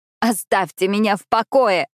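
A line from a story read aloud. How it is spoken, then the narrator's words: Tearless scream. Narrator (Russian): закричала я, хотя слез у меня больше не было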